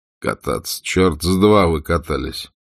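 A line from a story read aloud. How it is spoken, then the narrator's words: Cold voice. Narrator (Russian): Все так же холодно сказал он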